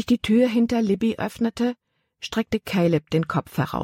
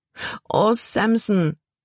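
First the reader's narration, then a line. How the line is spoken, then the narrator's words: Whining lament. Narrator (German): jammerte Libby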